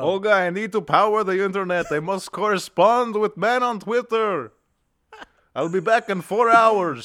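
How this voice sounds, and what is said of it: Put-on European accent. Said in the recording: “If you do a European accent, it's not racist.”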